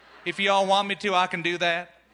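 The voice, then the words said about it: Put-on Southern American accent. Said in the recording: “I can do a Southern accent ... if you're from the South, please forgive me if I offended you”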